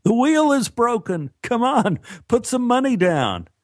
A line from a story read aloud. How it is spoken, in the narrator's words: He laughed and said